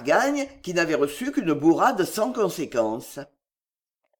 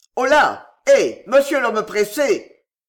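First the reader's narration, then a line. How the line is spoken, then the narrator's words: Gentleman exclaiming. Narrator (French): s'écria le gentilhomme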